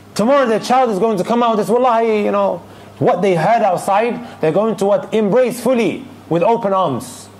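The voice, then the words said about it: Raised, passionate voice. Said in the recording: “I may be raising my voice a little bit, but I'm extremely, extremely passionate about this”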